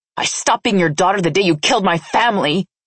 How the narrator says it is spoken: I snarled

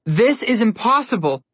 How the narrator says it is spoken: Connor yelled

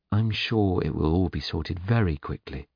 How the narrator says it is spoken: he said in a soothing voice

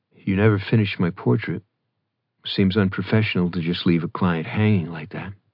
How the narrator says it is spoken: Foolish Declan said in an even tone

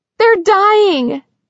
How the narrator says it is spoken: a woman shrieked

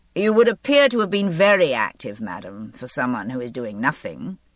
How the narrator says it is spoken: he said dryly

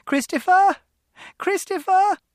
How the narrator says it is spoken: Mother's voice, and she was shouting

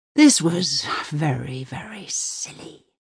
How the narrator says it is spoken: he hisses, finally

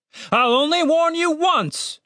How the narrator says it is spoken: shouted the captain, with more than a hint of desperation in his voice

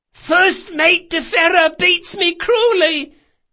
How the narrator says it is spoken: cried Jean in a squeaky voice

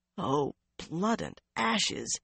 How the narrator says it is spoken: Elaine muttered, or tried to

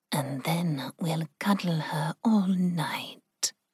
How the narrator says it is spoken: Ling purred

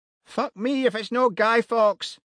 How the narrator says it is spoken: shouted Annie from behind the bar

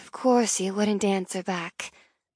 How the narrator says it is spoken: chided herself as she released a weary sigh

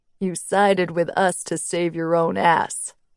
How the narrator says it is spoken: Ares sneered

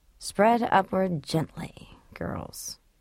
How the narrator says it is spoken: Tricia murmured now

